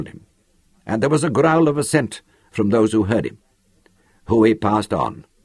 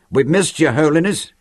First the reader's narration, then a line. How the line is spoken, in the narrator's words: one of them grinned and called out